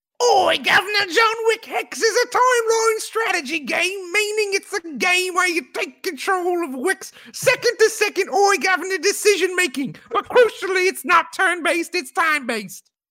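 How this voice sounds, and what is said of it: Put-on British accent imitating Mike Bithell. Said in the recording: “You got to not do it with your Mike Bithell accent ... He's British, right? ... You got the better British accent ... That was really good. I thought I was listening to Mike Bithell.”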